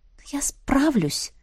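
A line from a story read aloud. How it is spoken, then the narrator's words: Doubtful whisper. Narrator (Russian): прошептала я, до конца сама не веря в это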